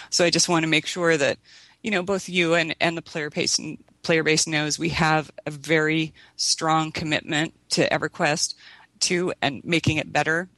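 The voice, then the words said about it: Strained, fading voice. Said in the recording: “I'm losing my voice because I'm so impassioned about this subject”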